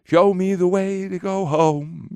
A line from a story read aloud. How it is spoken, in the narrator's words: sings